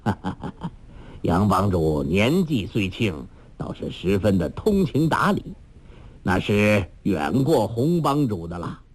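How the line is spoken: Laughing. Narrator (Chinese): 裘千仞笑道

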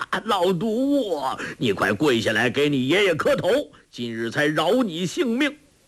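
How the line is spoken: Laughing shout. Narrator (Chinese): 但听得周伯通哈哈大笑，叫道

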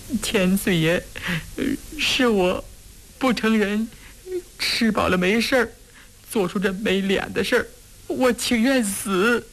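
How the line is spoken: Terrified sobbing. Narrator (Chinese): 越发吓得浑身发抖 抽泣着说

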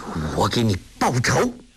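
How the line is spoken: Through gritted teeth. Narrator (Chinese): 梅超风咬牙切齿地说

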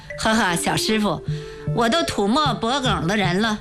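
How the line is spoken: Old man laughing. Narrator (Chinese): 老头笑了

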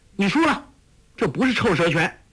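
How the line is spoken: Calling out. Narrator (Chinese): 黄蓉叫道

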